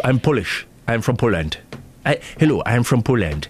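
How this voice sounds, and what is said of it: Poor put-on Polish accent. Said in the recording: “How do you say "all right, love" in a Polish accent? ... Not that. You can barely do your own.”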